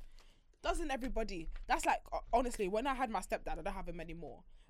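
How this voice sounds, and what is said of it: Usual voice. Nothing is said of it.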